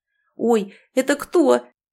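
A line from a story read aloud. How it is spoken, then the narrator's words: Startled exclamation. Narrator (Russian): воскликнул Даррен, испуганно дернувшись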